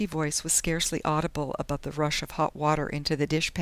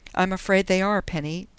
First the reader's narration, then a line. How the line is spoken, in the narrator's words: Dundee told her miserably